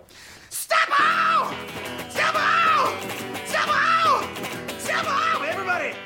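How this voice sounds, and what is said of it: Heavy metal falsetto. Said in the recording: “I love your heavy metal falsetto.”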